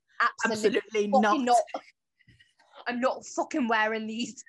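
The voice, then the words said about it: Imitates another person's voice. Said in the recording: “That's my Robert Pattinson impersonation.”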